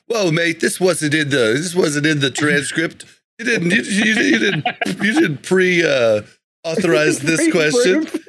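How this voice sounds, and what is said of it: Poor put-on English accent. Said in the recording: “you didn't pre-practice that English accent ... I'm horrible ... There was horrible. No effort put into that whatsoever”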